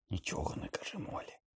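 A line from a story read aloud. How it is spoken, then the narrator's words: Whispered. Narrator (Ukrainian): прошепотів він Гаррі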